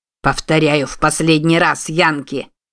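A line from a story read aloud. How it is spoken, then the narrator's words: Angry growl. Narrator (Russian): явно разозленный прорычал тощий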